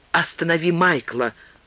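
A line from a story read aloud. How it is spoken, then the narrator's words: Woman whispering. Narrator (Russian): шепнула она ей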